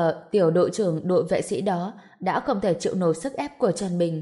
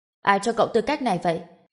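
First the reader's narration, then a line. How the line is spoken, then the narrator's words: Stern shouted question. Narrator (Vietnamese): sắc mặt vẫn nghiêm nghị quát lên hỏi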